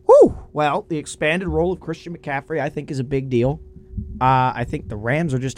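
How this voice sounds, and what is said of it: Hoarse, strained voice. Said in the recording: “My throat is a mess right now today. Pardon my voice.”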